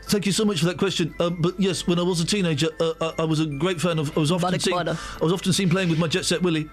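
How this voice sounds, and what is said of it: Impression of Ed Miliband. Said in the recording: “That is not a bad impression”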